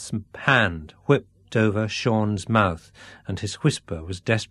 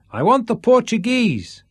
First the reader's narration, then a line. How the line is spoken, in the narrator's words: he shouted